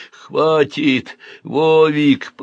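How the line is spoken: Wheezed. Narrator (Russian): просипел

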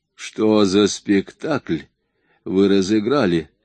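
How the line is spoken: Rude question. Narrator (Russian): грубо спросил

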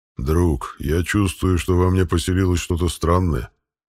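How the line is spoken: Growling voice. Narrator (Russian): сообщил питомец своим рыкающим голосом

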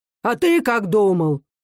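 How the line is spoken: Stern, rough old man's shout. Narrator (Russian): крикнул старик строго и грубо

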